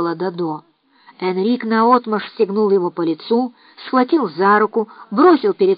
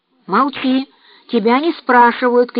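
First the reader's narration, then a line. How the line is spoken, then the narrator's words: Boy shouting. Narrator (Russian): крикнул мальчик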